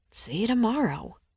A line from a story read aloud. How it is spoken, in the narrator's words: I muttered to the empty threshold